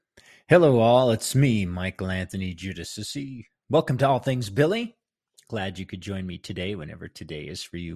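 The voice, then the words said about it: Extra deep, gravelly worn voice. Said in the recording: “My voice is extra deep today ... it does beat my voice up ... if I sound a little gravelly”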